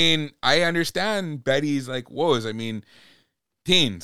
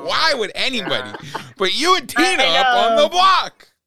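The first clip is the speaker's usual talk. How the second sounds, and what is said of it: Yelling. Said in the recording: “I'm sorry, I'm yelling.”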